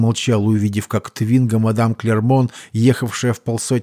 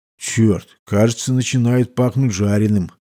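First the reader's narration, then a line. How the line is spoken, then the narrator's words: Muttered. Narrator (Russian): пробормотал Каньо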